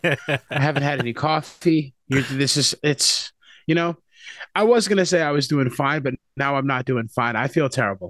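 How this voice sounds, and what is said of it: Slightly hoarse voice. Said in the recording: “I'm a little sore and a little hoarse”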